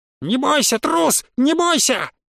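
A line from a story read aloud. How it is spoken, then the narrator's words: Shrill shriek. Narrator (Russian): Завизжал, или, может, завизжала, контролер Араэля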